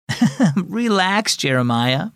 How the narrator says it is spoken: Mom said, chuckling

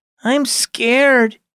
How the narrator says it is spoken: he whimpered

